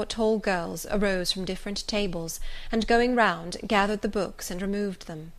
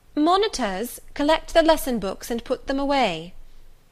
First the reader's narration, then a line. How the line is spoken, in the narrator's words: she cried out